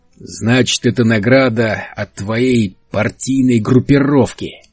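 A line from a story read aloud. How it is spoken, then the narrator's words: Snarled. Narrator (Russian): рявкнул Генри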